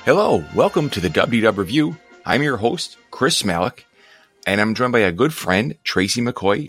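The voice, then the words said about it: Hoarse, slightly deeper voice. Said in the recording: “my hoarse voice ... a little more baritone in my voice ... I do notice a little”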